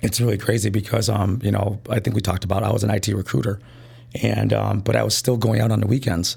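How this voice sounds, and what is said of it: Hoarse, strained voice. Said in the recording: “Sorry yeah. about my voice ... I lost my voice.”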